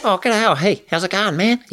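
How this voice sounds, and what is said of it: Chirpy Korg voice like Rhys Darby. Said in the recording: “giving him more of a Reese voice, so it was like Reese Darby's yeah. voice, which is a bit more kind of chirpy... he's kind of going to sound like this”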